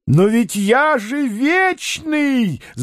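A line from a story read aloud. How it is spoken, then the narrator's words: Old man shouting. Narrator (Russian): закричал старик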